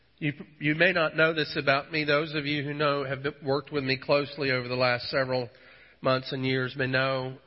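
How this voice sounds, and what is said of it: Congested, recovering voice. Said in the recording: “My voice is slowly returning. I'm still clogged up a bit”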